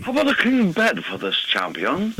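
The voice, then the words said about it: Classy posh put-on accent. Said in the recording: “Like, these are classy ways to talk. ... I can feel the monocle that he's wearing. ... Everything sounds better with an accent. So class it up a notch.”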